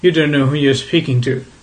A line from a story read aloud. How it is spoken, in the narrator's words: said Chief Inspector Heat firmly